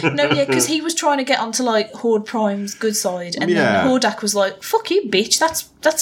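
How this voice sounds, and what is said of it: Usual voice. Nothing is said of it.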